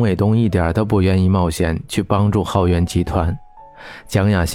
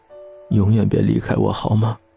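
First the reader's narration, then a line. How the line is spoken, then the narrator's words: Hoarse. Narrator (Chinese): 简凡沙哑地说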